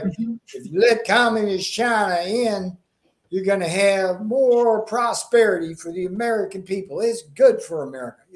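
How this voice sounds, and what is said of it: Southern-accented impression of another person. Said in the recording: “that was a very good impression ... I'm channeling my Southern roots there”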